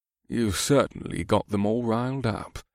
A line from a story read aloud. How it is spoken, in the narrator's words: Scourge added in a wry voice